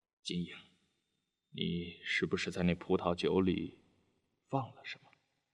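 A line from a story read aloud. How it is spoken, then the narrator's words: Finally speaking up. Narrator (Chinese): 德武终于开口说了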